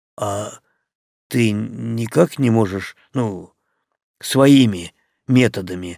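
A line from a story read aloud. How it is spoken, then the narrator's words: Slightly unsure question. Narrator (Russian): слегка неуверенно спросил Алексей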